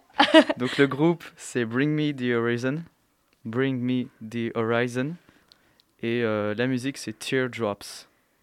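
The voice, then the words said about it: Impressive English accent on names. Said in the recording (French): “Mais quel accent! ... Waouh, c'est incroyable.”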